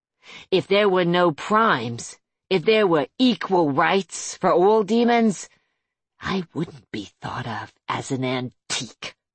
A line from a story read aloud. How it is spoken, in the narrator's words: she added bitterly